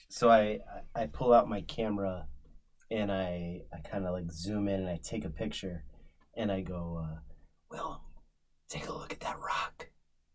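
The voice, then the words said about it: Whispering. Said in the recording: “Why are you whispering,”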